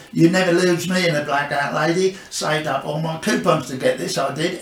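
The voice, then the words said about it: Norfolk accent doing Max Miller. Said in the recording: “I was the only Max Miller with a Norfolk accent... I just really can't lose my accent.”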